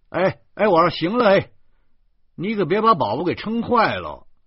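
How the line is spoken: Shouting. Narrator (Chinese): 我喊道

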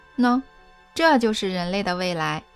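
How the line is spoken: Youth laughing loudly. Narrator (Chinese): 深发少年大笑

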